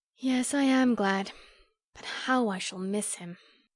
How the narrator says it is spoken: her face fell, adding with an involuntary sigh

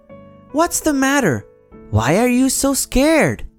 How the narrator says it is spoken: Fluffy shouted

